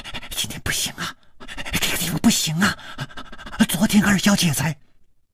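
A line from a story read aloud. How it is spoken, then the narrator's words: Abruptly cut off. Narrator (Chinese): 他的嘴还没有说完，就好像被什么东西给堵住了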